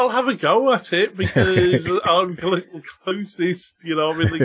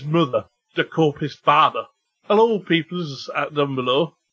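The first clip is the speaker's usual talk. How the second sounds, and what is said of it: Poor Cockney accent drifting Cornish. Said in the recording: “I think it's a Cockney accent. ... No, now I'm going Cornish. ... I'm really not good with accents.”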